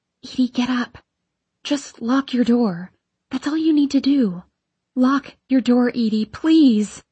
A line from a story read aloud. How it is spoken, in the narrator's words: I shout